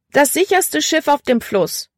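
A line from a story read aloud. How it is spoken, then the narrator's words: Calling out. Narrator (German): rief sie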